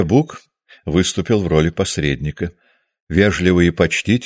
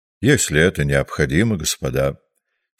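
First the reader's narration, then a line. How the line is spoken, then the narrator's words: Calm. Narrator (Russian): сказала она спокойно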